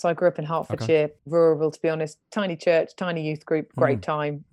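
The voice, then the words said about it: North London English accent. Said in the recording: “So my accent is North London.”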